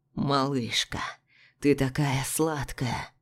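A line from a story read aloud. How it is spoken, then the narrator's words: Whisper. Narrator (Russian): прошептал Илья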